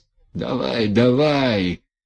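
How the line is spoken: Muffled reply. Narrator (Russian): глухо ответил Демид

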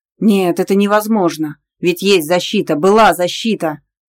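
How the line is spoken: Frenzied growl. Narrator (Russian): прорычал неистово

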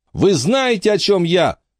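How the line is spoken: Shouting. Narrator (Russian): Теперь она уже кричала

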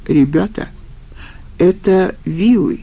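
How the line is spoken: Even calmer voice. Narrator (Russian): Бобер еще спокойней произнес

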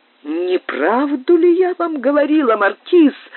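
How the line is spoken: Exclamation. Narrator (Russian): воскликнула леди Кэмпбелл

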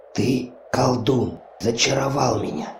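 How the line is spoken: Whispering. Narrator (Russian): зашептала

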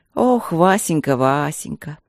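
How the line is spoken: Contented sigh. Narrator (Russian): Довольно вздохнула женщина

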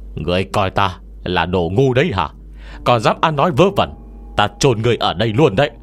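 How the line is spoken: Angry roar. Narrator (Vietnamese): hắn gầm lên

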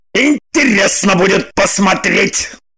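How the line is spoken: Angry. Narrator (Russian): Зло сказал он

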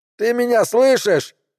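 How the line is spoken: Red-faced yelling. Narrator (Russian): вопил камуфляжник, полыхая лицом

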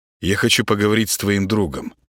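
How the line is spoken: Plain. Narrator (Russian): ответил Гена

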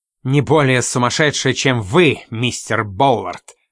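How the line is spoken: Sharp shout. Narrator (Russian): резко выкрикнула мисс Спайн

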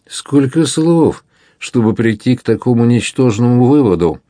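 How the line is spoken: Exclaiming with crooked smile. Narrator (Russian): воскликнул Буканьер, и лицо его искривилось в улыбке

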